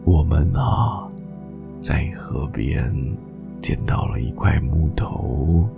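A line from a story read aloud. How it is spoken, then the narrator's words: Slow, drawling. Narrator (Chinese): 老山羊慢吞吞的说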